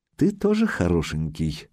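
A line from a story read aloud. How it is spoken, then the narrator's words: Velvety voice. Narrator (Russian): сообщила красавица бархатным голосом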